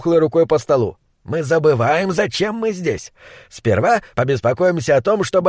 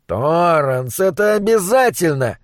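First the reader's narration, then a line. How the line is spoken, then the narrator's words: Groaning. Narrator (Russian): простонал Уокер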